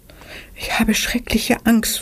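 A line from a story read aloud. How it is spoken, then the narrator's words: Frightened whisper. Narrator (German): flüsterte Anna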